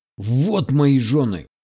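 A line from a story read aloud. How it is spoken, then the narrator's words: Chief's furious roar. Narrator (Russian): не сказал, а зарычал вождь, бешено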